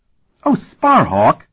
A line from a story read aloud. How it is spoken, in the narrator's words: She laughed